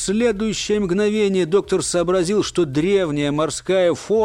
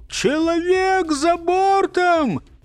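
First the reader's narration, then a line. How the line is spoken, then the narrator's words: Desperate falsetto shout. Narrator (Russian): Кто-то крикнул отчаянным фальцетом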